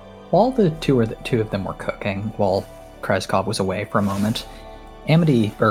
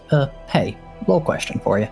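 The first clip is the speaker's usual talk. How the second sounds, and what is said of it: Quiet, hushed voice. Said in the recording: “in a quiet voice”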